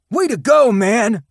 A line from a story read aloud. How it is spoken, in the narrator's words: shouted Henry